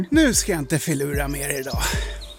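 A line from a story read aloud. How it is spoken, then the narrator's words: Laughing heartily. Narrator (Swedish): skrattade Karlsson så att magen hoppade och sen sa han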